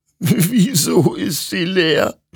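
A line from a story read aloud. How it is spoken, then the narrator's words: Sobbing. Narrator (German): schluchzte Hektor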